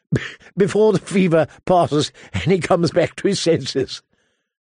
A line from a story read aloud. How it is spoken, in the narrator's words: suggested Harwin, chuckling